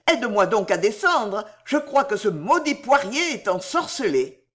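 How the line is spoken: Shouted. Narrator (French): cria-t-il

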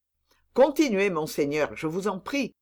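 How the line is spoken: Plain. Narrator (French): dit Aramis

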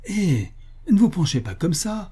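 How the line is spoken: Shouted. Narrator (French): lui criai-je

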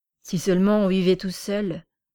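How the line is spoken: Grumbling. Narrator (French): grommelait-il

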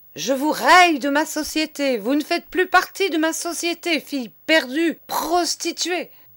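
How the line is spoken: Man bellowing. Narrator (French): vociférait monsieur

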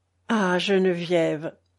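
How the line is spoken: Sad. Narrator (French): lui dit André tristement

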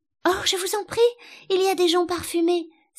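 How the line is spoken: Delighted exclamation. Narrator (French): s'écria Alice dans un transport de délices

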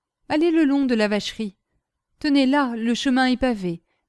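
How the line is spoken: Exclaimed. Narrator (French): s'écria-t-il

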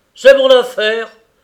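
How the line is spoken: Exclaiming with fierce energy. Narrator (French): s'écria Clément avec une énergie effroyable

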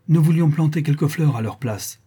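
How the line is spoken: Exclaiming. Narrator (French): s'écria-t-elle

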